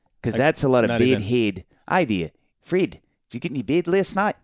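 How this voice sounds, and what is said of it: Attempted New Zealand accent. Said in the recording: “trying to nail the New Zealand accent ... That's not bad, actually ... It's not bad at all ... it's not bad. It's terrible.”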